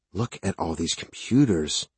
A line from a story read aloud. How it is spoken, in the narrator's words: Jess whispered